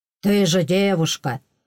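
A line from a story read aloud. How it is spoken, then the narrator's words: Gruff snort. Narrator (Russian): хмыкнул брутально Энн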